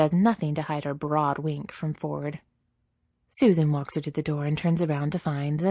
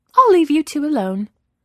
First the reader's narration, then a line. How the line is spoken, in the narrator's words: Nancy says brightly